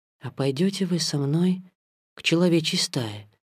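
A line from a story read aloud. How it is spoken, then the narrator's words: Whisper. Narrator (Russian): прошептал Маугли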